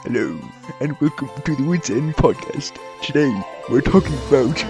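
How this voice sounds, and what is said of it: Impression of Regis. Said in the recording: “in your best Regis voice.”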